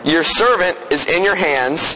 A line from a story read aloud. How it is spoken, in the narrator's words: Abram said